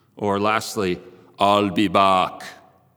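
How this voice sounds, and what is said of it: Imitated Austrian-German accent. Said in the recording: “my German accent there. But it's actually Austrian.”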